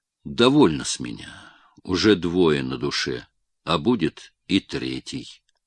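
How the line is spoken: Plain. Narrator (Russian): ответил Каховский

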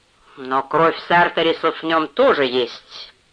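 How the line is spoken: Grumbled, father. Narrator (Russian): проворчал отец

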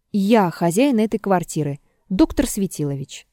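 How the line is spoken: Formal tone. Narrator (Russian): сказал он таким же официальным тоном

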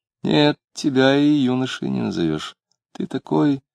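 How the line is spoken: Fairly soft, smiling. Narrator (Russian): с непонятной улыбкой, сказала довольно мягко

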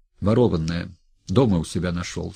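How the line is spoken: Plain. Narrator (Russian): сказал тот

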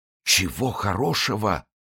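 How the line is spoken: Muttered. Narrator (Russian): пробормотал он

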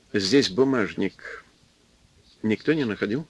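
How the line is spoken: Asked quietly. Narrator (Russian): спросил продавщицу негромко

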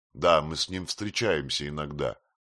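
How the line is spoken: Plain. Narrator (Russian): сказал Филиппо Мечо

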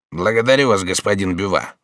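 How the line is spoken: Dry. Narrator (Russian): сухо отвечал министр

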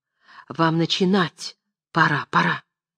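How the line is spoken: Whispered. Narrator (Russian): Любская шепнула Мечиславскому

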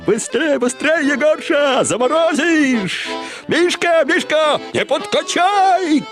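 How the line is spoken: Women shouting. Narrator (Russian): кричали бабы

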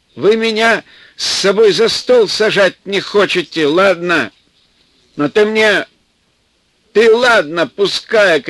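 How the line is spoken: Old man shouting. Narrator (Russian): кричал дед

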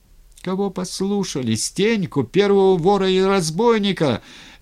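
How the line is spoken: Shouted. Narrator (Russian): крикнул сам воевода Тургенев

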